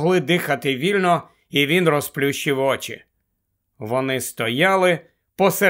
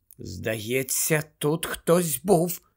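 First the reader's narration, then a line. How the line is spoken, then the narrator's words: Whisper. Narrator (Ukrainian): прошепотіла Герміона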